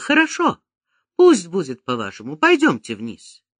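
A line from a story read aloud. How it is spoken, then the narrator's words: Dazed exclamation. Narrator (Russian): Не понимая, что я делаю, не отдавая отчета в своих поступках, я воскликнула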